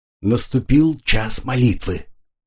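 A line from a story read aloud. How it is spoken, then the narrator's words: Whisper. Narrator (Russian): шепнул он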